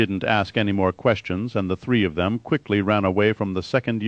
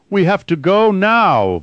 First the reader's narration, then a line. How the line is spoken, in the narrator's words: Vorden shouted